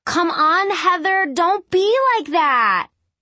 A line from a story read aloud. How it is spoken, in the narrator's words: A girl yelling